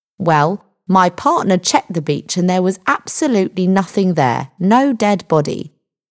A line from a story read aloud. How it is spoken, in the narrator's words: the sergeant said